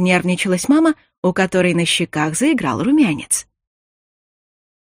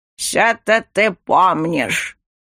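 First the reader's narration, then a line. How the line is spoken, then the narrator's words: Reproachful old man's grumble. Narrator (Russian): проворчал с укором дедуля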